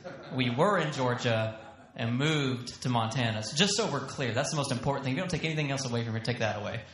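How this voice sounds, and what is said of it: Thick Southern US accent. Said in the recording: “you're going to hear my accent come out really thick ... it just shouts, you're from the South”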